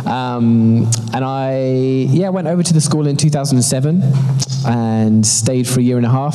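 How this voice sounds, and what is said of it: British London accent. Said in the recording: “As you can tell from my accent, I'm not actually from Toronto. I am, in fact, from London, UK.”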